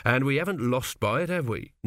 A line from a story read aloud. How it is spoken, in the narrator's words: said his father stiffly